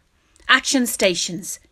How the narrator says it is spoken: James shouted

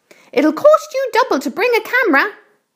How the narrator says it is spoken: Aunt Spiker shouted

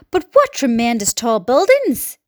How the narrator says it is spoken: exclaimed the ladybird

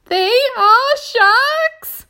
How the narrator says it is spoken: cried the earthworm

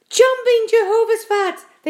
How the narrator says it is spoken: They cried

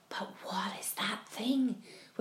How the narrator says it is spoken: whispered the ladybird

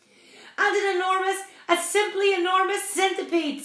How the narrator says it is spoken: screamed the captain

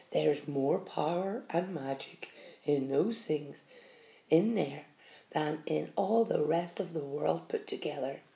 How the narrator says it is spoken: the old man said softly

